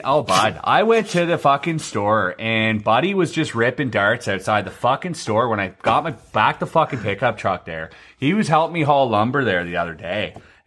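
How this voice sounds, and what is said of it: Exaggerated small-town Canadian hoser accent. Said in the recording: “they're like straight fucking hosers, by ... And that's how they talk, right? ... what a true. Canadian accent is when I hear it”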